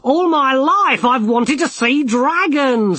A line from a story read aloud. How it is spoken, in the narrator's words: he cried